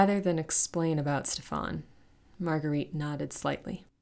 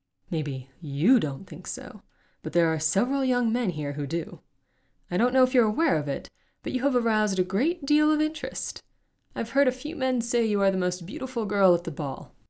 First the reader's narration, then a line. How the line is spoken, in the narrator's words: he chuckled